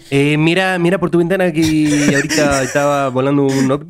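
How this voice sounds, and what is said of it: Put-on Chilean Spanish accent. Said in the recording (Spanish): “todo esto con acento chileno, ¿no?”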